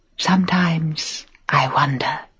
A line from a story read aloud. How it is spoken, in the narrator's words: she whispered